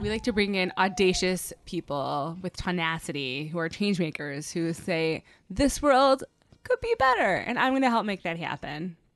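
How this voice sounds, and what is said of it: Pronounced Midwestern-Southern mixed accent. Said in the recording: “I have a weird accent. ... I have a mix of like the Midwest and the South ... it was just so pronounced.”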